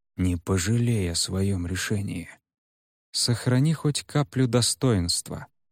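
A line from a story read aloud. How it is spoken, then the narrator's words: Quiet reply. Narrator (Russian): столь же тихо отозвался Шимин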